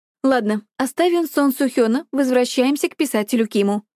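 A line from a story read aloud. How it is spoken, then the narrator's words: Teacherly tone. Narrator (Russian): учительским тоном произнесла Бара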